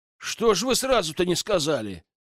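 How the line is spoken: Indignant. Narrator (Russian): возмущенно отвечаю главе разведки

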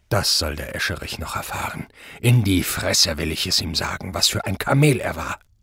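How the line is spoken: Muttered. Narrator (German): Prall murmelte

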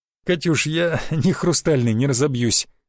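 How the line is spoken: Laughing. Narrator (Russian): засмеялся я

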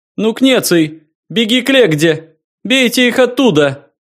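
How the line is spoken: Yelling. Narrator (Russian): орал Либерий

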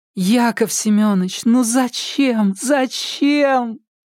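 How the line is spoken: Moaning aloud. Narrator (Russian): простонала это вслух

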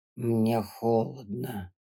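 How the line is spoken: Wheezing rasp. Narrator (Russian): прохрипел он

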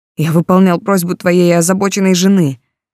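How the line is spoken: Growling. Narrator (Russian): Сальва зарычал

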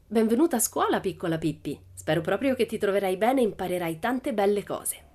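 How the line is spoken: Very friendly. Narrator (Italian): Disse soltanto in tono molto amichevole

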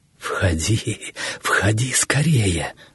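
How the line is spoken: Breathless joyful whisper. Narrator (Russian): зашептал, задыхаясь от волнения и переполнявшей радости

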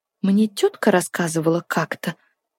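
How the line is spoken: Quiet. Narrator (Russian): тихо начала она

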